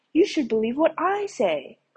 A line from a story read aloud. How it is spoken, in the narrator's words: cried the second man